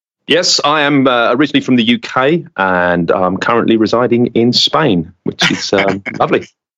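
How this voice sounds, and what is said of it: British accent. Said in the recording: “sounds British”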